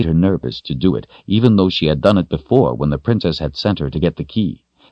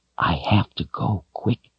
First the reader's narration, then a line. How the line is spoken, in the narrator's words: she whispered